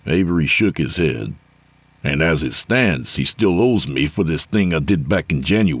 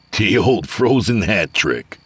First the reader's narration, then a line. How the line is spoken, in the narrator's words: Avery said, chuckling